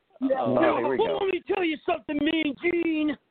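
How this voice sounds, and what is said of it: Imitates another person's voice. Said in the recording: “do your Hulk Hogan one really quick”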